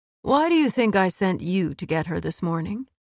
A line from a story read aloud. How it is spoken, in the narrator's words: unable to help his laugh